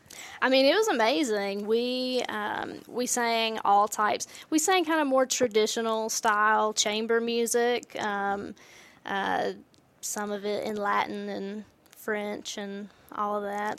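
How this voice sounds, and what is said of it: Noticeable speaking accent. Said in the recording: “when you hear this accent going on”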